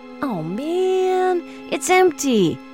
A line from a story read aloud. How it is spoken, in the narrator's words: he whined